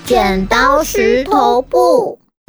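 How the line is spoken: Shouting in unison. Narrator (Chinese): 福奇、耶耶嘴里同时喊出

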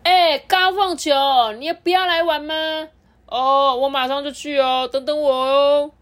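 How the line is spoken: Sudden loud boy's voice. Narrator (Chinese): 在后面玩闹的男同学突然大声的说

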